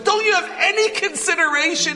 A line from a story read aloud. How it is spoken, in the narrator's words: he yelled